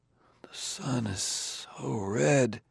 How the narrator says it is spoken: Bailey mumbled

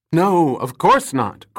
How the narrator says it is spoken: cried Hardin

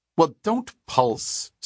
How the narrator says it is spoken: said Dua sharply

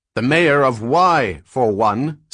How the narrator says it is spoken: said Cleon, suddenly shouting

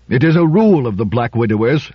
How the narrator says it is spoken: said Trumbull impatiently

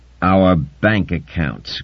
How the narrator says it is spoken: grunted Yaimot 70

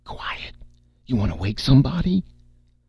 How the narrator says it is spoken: Red kept to his croaking whisper

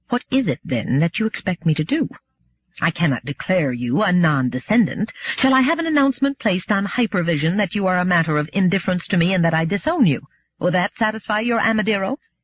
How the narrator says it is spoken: she said in a tight voice

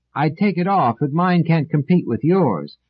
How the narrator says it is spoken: Doris shouted back

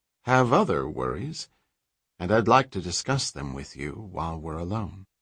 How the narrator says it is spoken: said, making the transition smoothly

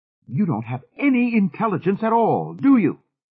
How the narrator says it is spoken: She cried

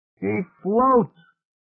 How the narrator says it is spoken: He yelled

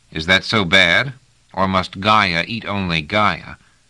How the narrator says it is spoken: sighed

